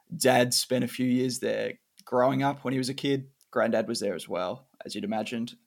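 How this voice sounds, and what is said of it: Australian English accent. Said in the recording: “Australian, as you would probably notice by the accents.”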